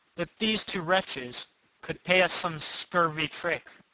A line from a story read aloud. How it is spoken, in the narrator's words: cried Cacambo mournfully